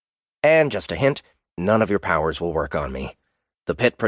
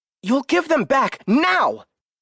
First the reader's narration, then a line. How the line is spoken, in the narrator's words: Lily shouted at his back